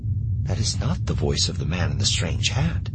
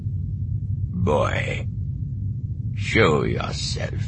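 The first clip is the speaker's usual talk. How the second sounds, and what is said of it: Crisp accented, guttural, drawn-out voice. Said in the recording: “This voice has a crisp accent, but it's guttural, drawn out. In it is a grim vibration that chills the boy's blood.”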